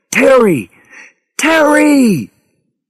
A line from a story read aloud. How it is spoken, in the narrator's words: Harry screamed into his radio